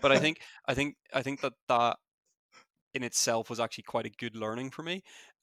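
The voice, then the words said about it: Fast speech, thick accent. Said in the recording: “I do talk very quickly and I do have a bit of a thick accent”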